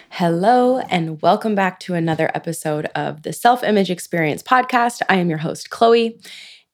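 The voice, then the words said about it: Raspy, lower-pitched sick voice. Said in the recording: “my voice is a little raspy, a little lower than usual ... I am COVID positive and surviving day 8 of being sick as a dog ... excuse my voice ... I promise my voice does not always sound like this”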